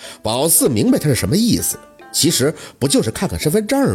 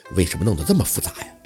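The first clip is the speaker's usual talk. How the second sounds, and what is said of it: Quiet, whispered question. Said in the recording (Chinese): “小声的”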